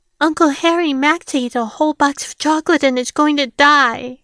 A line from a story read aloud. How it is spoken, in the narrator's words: Rose exclaimed